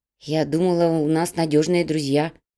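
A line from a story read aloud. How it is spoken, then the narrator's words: Muttering woman. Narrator (Russian): пробормотала переплетчица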